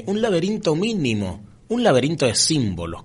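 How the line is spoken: Exclaiming. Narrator (Spanish): exclamé

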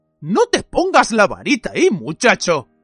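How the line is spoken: Bellowed. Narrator (Spanish): bramó Moody

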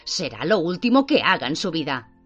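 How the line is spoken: Howling. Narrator (Spanish): aullaba

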